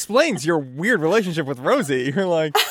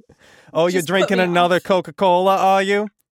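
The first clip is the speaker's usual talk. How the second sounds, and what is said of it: Sassy Brooklyn-accented robot voice. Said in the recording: “my best Rosie impression ... pretty spot on. Yeah, she was like from Brooklyn.”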